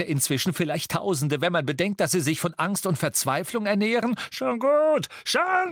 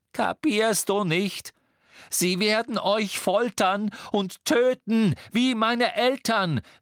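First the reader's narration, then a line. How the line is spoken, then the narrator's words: Calling out. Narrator (German): rief Harry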